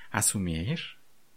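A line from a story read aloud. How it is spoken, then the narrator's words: Deceptively gentle purr. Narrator (Russian): обманчиво ласково промурлыкал Шанти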